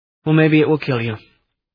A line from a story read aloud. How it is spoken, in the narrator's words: he answered calmly